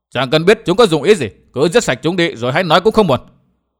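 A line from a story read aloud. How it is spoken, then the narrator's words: Raised voice. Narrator (Vietnamese): gã vẫn cao giọng nói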